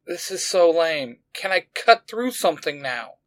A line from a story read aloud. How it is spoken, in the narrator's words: Izzy moaned